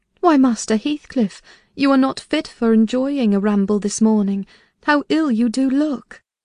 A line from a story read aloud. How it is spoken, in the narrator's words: I immediately exclaimed